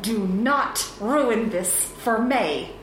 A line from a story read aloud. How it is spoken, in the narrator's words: she hissed